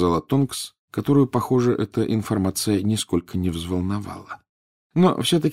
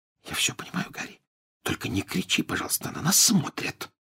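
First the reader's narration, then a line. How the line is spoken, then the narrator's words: Whisper. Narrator (Russian): прошептала Гермиона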